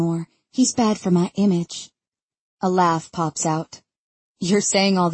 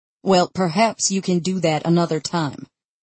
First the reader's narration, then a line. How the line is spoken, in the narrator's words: he says in a clipped voice